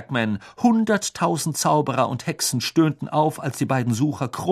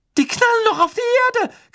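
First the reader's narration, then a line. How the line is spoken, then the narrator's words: Shrieking. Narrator (German): kreischte Hermine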